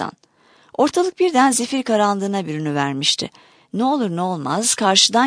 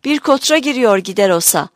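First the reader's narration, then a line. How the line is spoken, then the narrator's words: Shouted from overhead. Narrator (Turkish): diye bağırdı baş üstünden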